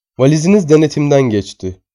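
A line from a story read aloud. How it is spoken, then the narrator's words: Plain. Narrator (Turkish): dedi bana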